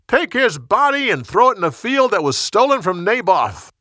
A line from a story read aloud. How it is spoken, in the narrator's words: commander shouted